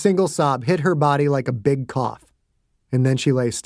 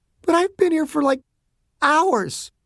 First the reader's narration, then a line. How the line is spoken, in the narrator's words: Betty said, fighting back sobs